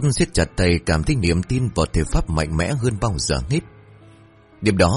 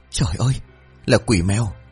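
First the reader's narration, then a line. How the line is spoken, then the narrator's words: Terrified stammering. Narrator (Vietnamese): Bà Tốt mặt trắng bệch, miệng lắp bắp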